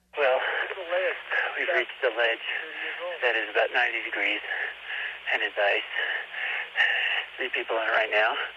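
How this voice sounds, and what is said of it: Tired, weary voice. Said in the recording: “You sound tired there, bud.”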